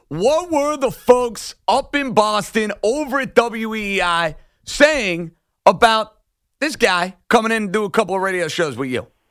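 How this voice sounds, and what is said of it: Thick New York accent. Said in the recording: “I have a little bit of a thick accent ... it doesn't sound like New York at all”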